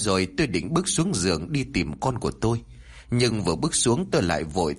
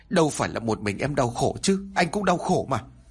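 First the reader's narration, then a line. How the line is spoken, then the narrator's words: Near-shouting. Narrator (Vietnamese): Lúc này anh Cảnh nói như quát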